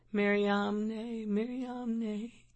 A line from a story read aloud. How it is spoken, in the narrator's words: murmuring